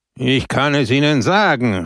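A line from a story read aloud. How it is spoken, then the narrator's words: Shouted. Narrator (German): rief Peppone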